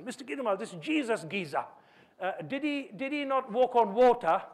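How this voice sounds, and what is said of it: Imitated East London accent. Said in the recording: “I try my best to put his accent, a very East London accent.”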